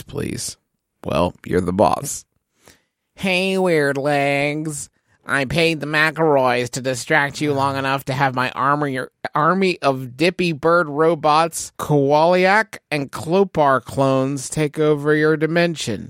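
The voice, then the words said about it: Nasally character voice. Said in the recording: “in a nasally voice”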